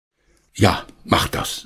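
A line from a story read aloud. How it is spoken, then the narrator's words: Plain. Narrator (German): sagte Herr Schmidt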